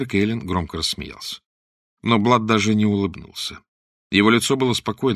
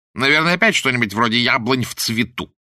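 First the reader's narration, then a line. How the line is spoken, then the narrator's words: Contemptuous snort. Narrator (Russian): презрительно фыркнул его светлость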